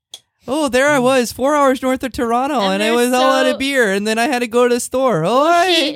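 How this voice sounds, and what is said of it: Put-on Canadian accent. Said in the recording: “Do you read it in a Canadian accent?”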